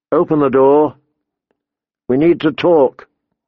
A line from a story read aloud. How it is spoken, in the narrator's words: father's voice called out